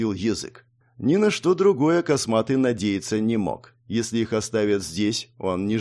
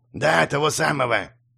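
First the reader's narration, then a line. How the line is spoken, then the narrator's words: Nasal old man, head cold. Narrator (Russian): говорил старик гнусавым из-за насморка голосом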